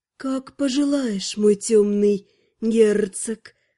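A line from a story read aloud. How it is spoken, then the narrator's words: Purring. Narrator (Russian): Промурлыкала красноволосая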